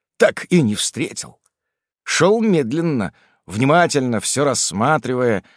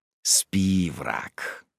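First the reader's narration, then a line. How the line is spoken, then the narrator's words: Hissed. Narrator (Russian): прошипел я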